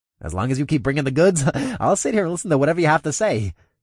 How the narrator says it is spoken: Reginald chirped

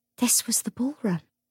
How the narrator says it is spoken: said in a soft voice

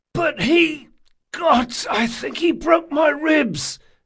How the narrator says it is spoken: wheezed the first man Jean had dealt with

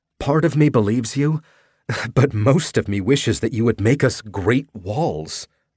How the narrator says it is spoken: she laughed

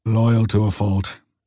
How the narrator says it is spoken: muttered the old man

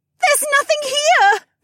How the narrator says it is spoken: Becca wailed

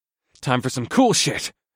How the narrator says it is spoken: I grunted

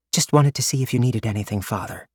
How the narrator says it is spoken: she whispered, unwilling to disturb the quiet of the room

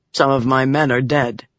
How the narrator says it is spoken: he said, his voice a monotone

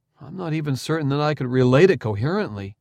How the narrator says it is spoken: he sighed

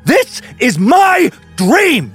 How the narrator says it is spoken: Duncan roared

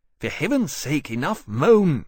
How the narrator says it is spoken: Kane's said sharply

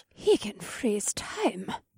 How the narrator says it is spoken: said in an awed voice

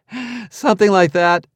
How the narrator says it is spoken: said, tossing off a chuckle just to be a good sport

